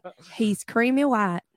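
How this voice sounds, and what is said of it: Put-on Kentucky accent. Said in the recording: “really horrible ... Kentucky accent. ... No, that's pretty accurate, actually. ... somewhere between what? ... Minnesota and Kentucky.”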